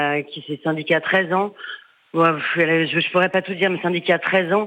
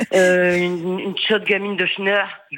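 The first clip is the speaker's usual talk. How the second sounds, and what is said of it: Northern French accent. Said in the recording (French): “je le fais avec l'accent, parce que moi aussi je suis du Nord”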